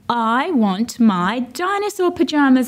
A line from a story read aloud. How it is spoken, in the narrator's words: said, and roared ferociously